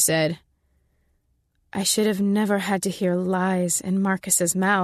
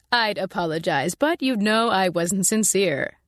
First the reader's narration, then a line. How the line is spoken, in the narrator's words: Marsh said, and I thought he was close to laughing